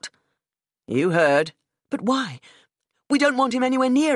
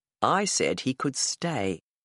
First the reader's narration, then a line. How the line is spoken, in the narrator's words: told her quietly